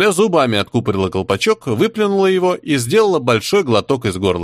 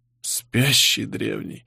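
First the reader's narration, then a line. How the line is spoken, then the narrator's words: Moaned. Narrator (Russian): простонал Жуций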